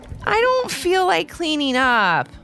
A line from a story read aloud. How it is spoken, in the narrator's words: Ivy whined